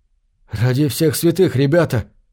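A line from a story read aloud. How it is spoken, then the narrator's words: Babbling. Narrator (Russian): пролепетал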